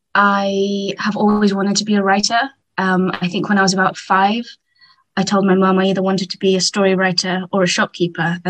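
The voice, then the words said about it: English accent. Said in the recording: “I'm English, as you can tell from the accent.”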